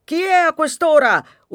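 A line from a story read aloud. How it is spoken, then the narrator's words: Husband's loud yell. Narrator (Italian): urla il marito più forte del bambino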